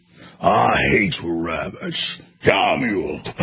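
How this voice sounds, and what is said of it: Yosemite Sam impression. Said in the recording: “You're not going to get Yosemite Sam ... That's pretty good, actually”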